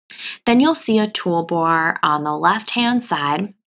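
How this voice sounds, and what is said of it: Long Island accent. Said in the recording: “my Long Island accent sneaking out”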